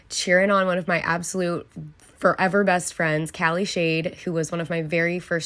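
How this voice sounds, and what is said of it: Raspy voice. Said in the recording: “my voice is sounding a little raspy. ... I have been absolutely screaming my head off for the past 2 days”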